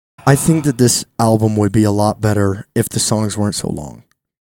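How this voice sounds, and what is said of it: Deliberately calm voice. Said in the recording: “in a calm voice ... Calm. Okay, I'll do it in a calm voice ... I did it in calm voice”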